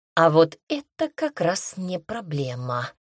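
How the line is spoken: Insinuating purr. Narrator (Russian): вкрадчиво мурлыкнул врач

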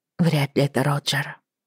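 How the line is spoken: Muttering. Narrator (Russian): пробормотала она мне

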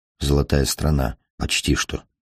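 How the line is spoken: Muttered. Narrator (Russian): пробормотал он

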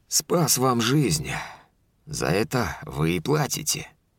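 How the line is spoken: Calm, unbothered. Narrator (Russian): спокойным тоном ответил наемник, так, будто ничего не произошло

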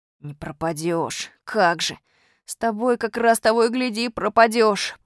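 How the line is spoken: Groan. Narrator (Russian): простонал Костя Малинин

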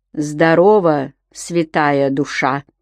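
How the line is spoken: Hoarse. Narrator (Russian): сипло сказал Митька

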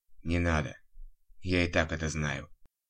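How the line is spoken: Reluctant mutter. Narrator (Russian): буркнул пациент, против воли втягиваясь в разговор

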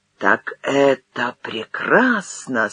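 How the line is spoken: Quiet. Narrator (Russian): сказал Юхно тихо

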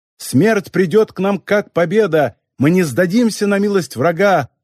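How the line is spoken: Shouting. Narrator (Russian): кричала Нарутян

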